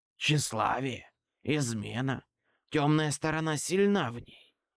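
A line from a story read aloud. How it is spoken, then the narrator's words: Whisper. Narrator (Russian): прошептал Твилик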